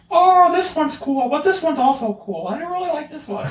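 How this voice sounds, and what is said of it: Mickey Mouse-like imitated voice. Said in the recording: “I really like your Alex Jean impression ... my impression of her ... what would Mickey Mouse sound like if Mickey Mouse was blonde?”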